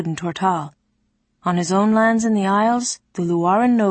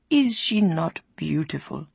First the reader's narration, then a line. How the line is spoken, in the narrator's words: asked Locage softly